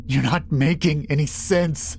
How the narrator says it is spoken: I wheezed

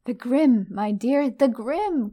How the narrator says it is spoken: cried Trelawney

